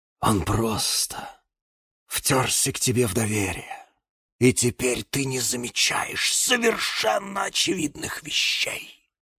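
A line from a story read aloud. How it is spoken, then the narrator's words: Loud tragic whisper. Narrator (Russian): Громким трагическим шепотом произнес гиацинт Василий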